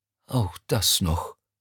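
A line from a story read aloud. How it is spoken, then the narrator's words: Sighing. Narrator (German): seufzte er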